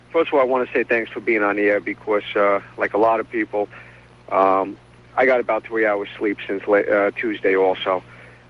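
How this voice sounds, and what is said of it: New York accent. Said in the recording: “another New York accent”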